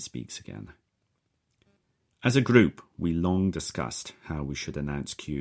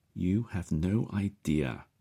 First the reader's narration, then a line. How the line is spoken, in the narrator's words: says Collins, his voice trailing off